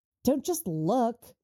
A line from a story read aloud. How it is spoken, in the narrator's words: she snaps at him